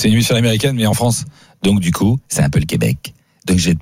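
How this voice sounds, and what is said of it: Usual voice. Nothing is said of it.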